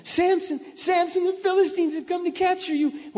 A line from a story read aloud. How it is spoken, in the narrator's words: she cried out